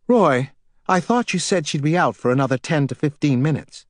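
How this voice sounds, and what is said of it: Frosty New England accent. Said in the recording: “frosty New England accent”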